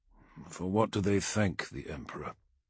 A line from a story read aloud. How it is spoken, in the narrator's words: he quietly asked Keela